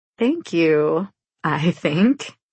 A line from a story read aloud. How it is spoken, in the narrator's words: say with a laugh